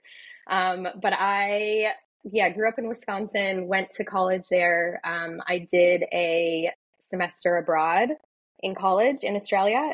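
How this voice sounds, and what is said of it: American accent. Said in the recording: “people are always disappointed to hear my accent. They're like, oh, she's American.”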